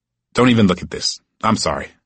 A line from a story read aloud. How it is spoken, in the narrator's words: she said nervously